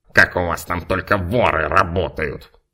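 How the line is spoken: Grumbling. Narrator (Russian): Пробурчал невампир

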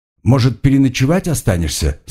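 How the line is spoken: Plain. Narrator (Russian): спросил я

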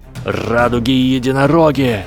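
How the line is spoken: Growling. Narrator (Russian): зарычал солнечный капитан

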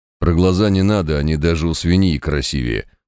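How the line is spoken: Grumbling mutter. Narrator (Russian): буркнул Квас

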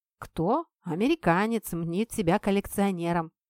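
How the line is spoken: Crackling speaker, nasty old laugh. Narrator (Russian): В динамике зашуршало, старик противно рассмеялся

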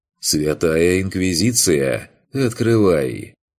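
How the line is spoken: Suppressing laughter. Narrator (Russian): Курт, сдерживаясь, чтобы не засмеяться ответил

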